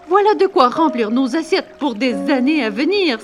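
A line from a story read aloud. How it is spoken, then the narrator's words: Father's exclamation. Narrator (French): s'exclama son père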